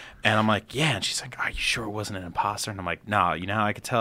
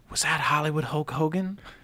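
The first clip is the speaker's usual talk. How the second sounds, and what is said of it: Put-on accent imitating a woman. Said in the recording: “That was my version of her accent. Hers was a lot more real.”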